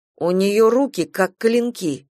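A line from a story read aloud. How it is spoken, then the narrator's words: Plain. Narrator (Russian): сказала она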